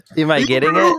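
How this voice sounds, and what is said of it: Imitates another person's voice. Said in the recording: “Was that your Arnold impression?”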